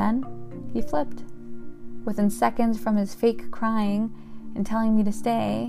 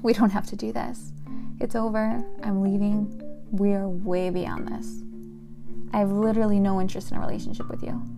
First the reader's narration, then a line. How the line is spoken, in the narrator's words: smirking almost, and said calmly